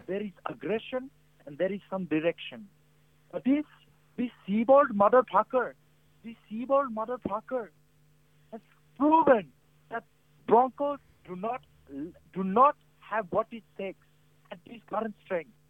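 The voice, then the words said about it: Speaks in a possibly fake accent. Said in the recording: “Is this a fake accent? ... It's a good accent if it is. It seems pretty real.”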